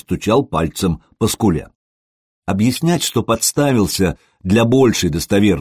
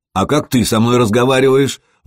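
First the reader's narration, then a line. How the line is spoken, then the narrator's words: Shouted. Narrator (Russian): выкрикнул Сергей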